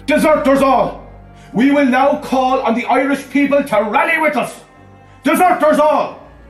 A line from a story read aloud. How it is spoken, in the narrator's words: Michael Collins shouted